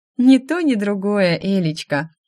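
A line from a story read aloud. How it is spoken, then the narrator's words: Laughing. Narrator (Russian): Рассмеялась подруга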